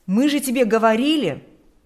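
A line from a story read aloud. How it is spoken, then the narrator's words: Justified exclamation. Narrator (Russian): они вполне оправданно смогут воскликнуть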